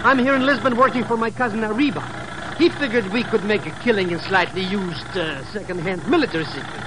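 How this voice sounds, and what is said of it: Speaks with a foreign accent. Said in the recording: “she already goes for my accent”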